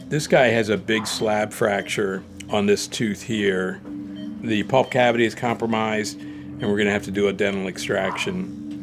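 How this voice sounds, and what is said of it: Muffled voice through a mask. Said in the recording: “my voice is going to be a little bit muffled just because I'm putting a surgical cap on and a mask”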